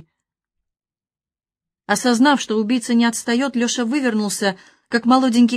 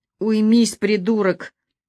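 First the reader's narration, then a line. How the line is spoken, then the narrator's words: Monster's hoarse rasp. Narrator (Russian): прохрипело чудовище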